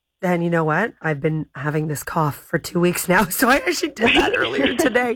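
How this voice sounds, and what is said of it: Slightly hoarse voice. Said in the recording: “You can hear I'm a little bit hoarse.”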